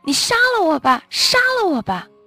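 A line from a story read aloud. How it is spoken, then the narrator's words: Sudden shouting. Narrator (Chinese): 我突然大声喊起来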